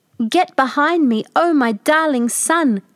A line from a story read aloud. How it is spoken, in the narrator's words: cried Patroclus